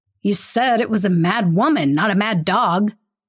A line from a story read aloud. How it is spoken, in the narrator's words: one of the policemen snaps